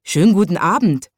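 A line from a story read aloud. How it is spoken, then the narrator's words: Little watchman calling. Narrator (German): rief der kleine Nachtwächter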